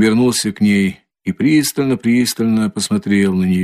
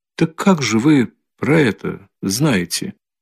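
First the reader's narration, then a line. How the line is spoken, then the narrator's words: Barely audible question after pause. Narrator (Russian): чуть слышно спросила она, и опять почти после минутного молчания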